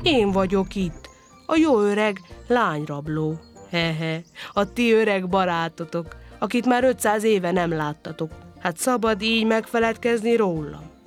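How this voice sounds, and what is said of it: Bellowing in a coaxing friendly voice. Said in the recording (Hungarian): “Bömbölt utánuk nyájas hangon ... a nyájas hang”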